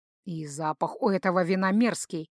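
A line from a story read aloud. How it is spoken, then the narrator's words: Irritated grumble. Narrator (Russian): буркнул Гархаэт, раздраженный тем, что упускает выпивку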